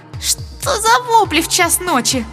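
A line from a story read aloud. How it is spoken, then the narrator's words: Creaky voice. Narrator (Russian): проскрипела она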